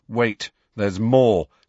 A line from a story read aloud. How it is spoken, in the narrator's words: said Hermione grimly